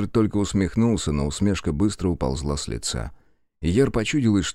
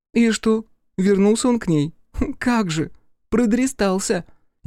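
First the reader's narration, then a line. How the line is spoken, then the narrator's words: Giggle under breath. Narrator (Russian): Яр хихикнула под нос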